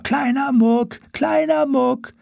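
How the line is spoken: Repeated shouting. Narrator (German): schrien immer

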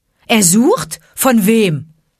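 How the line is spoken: Calling out. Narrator (German): rief Mowgli

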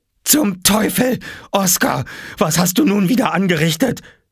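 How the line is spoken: Screaming. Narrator (German): schrie sie

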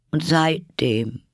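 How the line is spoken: Sad, continuing. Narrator (German): sprach der Hutmacher traurig weiter

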